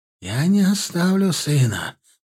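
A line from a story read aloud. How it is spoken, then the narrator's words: Slightly hoarse. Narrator (Russian): произнес он хрипловато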